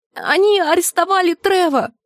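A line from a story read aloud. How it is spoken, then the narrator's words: Shrieking. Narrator (Russian): Джульетта взвизгнула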